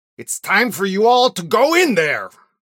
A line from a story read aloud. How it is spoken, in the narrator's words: shouts Xenon over the rain